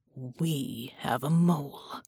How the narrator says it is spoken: she muttered, clenching her teeth so hard her jaw ached

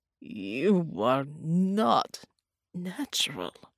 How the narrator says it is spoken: Bella croaked

